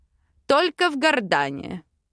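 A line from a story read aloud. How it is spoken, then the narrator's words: Amused snort, suppressed smile. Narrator (Russian): хмыкнул, пряча улыбку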